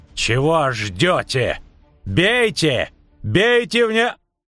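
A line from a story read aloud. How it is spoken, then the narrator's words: Gruff bark. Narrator (Russian): Рявкнул лесничий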